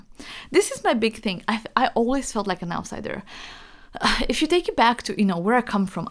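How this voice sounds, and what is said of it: Romanian accent in English. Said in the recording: “I'm from Romania. You can hear from how I talk. Like, I have an accent.”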